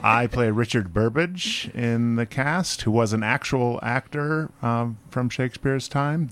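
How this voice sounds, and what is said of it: Polished radio announcer voice. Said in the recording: “You have the perfect radio voice.”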